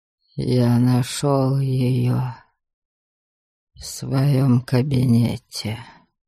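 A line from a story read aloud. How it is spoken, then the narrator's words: Near whisper. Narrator (Russian): почти прошептал он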